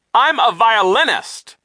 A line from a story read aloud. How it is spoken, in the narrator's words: Nero cried